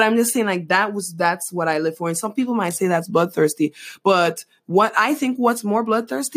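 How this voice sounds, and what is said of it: Usual voice. Nothing is said of it.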